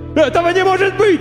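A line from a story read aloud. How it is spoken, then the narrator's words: Homeless man wailing. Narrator (Russian): вопил бомж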